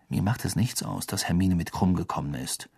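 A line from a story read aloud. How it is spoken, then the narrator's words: Quiet. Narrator (German): sagte Harry leise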